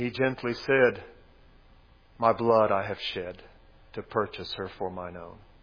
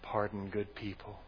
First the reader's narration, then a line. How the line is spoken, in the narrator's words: she whispered